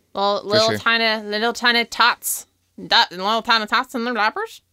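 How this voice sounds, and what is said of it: Attempted put-on Southern accent. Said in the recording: “was that supposed to be a baby voice? ... No, that was supposed to be my ex. My southern accent.”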